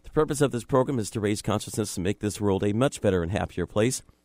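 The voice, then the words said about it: Hoarse, congested sick-sounding voice. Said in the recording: “I'm so sorry about my throat. I've got a little cold”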